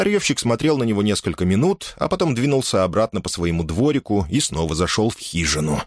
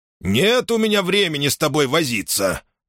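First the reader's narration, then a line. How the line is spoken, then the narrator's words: Grumbling junk dealer. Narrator (Russian): проворчал старьевщик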